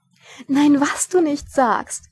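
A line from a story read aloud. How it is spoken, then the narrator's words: Giggling. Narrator (German): kicherte Lady Sybil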